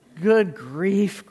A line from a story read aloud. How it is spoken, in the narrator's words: groaned the ones who had stars at the first